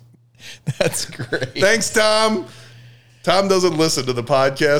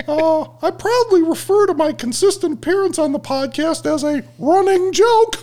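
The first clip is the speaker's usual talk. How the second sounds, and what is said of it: Imitates another person's voice. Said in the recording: “in my Tommy voice”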